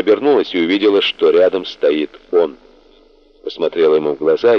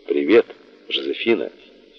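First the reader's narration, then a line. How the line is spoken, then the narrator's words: Quiet familiar voice. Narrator (Russian): Знакомый голос тихо произнес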